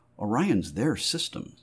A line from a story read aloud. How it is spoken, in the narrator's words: Tony murmured